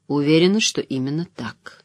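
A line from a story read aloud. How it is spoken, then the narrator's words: Quiet. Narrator (Russian): тихо произнесла Айз Седай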